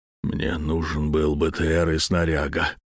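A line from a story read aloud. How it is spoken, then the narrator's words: Forced out after pause. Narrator (Russian): выдавил после паузы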